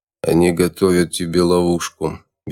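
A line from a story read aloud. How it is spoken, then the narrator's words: Flat toneless voice. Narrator (Russian): бесцветным голосом ответил контрразведчик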